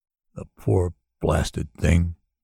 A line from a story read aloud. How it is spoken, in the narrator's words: he said softly, completely helpless